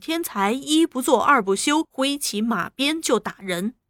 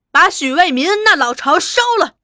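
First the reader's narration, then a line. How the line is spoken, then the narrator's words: Shout. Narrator (Chinese): 有人喊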